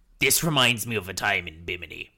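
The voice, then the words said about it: Performs a character's voice. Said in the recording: “So either Salty, when goes, this reminds me of a time in Bimini. I'm going to do the voice.”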